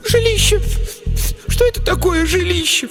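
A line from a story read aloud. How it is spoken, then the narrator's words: Sobbing. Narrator (Russian): всхлипнула другая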